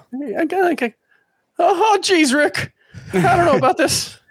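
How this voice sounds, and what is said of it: Morty cartoon character voice. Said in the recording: “do a really good impression of either Rick or Morty ... Very nice.”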